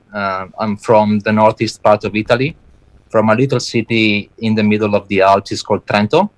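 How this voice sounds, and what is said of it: Italian-accented English. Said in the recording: “I'm judging by your accent that you're not from around here ... I'm Italian born and bred”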